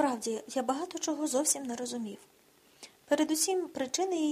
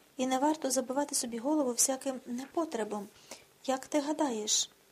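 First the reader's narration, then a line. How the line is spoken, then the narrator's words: Sighing. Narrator (Ukrainian): зітхнула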